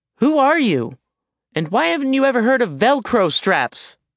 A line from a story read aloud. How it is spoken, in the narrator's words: Alex yelled